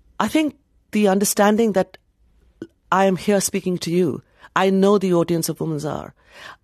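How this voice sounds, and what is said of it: Foreign-accented English. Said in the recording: “in my accented voice, with my immigrant name”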